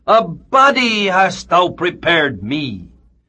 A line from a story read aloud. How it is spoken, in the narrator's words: the infant Christ cried out to the universe